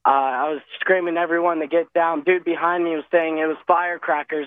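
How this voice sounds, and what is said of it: Hoarse, partly lost voice. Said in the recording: “I lost a little bit of my voice. I'm still trying to recover from losing my voice.”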